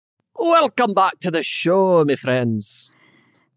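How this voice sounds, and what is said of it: Cartoony Scottish accent. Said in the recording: “Scrooge McDuck... the Scottish accent, there's like a cartoony version of it”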